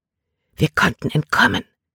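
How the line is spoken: Whisper. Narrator (German): flüsterte sie Caleb zu

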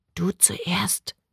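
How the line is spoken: Whispered. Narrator (German): flüsterte Lil

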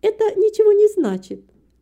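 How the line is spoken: Objecting, laughing despite fear. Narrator (Russian): возразила добрая женщина, тоже смеясь, несмотря на свой страх

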